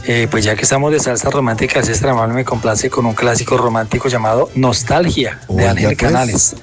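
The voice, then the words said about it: Beautiful radio announcer voice. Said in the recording (Spanish): “tiene una voz lindísima ... Tiene una voz mejor que la de mis compañeros acá ... este hombre tiene voz de locutor”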